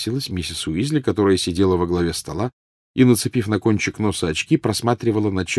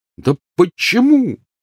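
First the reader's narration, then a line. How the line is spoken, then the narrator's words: Angry exclamation. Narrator (Russian): воскликнул гневно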